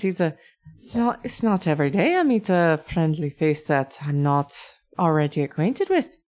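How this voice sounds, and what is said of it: Dragonborn character with Aleutian accent. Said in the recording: “He's a dragonborn. ... He's got the Aleutian accent.”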